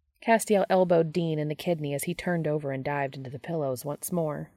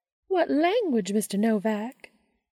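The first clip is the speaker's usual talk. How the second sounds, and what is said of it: High-pitched put-on southern accent. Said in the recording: “affecting a high-pitched southern accent”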